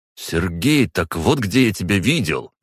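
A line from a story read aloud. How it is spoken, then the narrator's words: Exclaiming. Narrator (Russian): воскликнул Хлыстов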